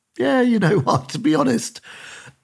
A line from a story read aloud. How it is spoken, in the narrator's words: laughing at it, going